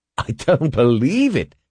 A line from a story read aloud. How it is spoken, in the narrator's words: he exclaimed